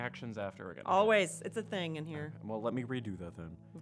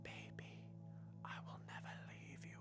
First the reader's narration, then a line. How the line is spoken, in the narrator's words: he whispered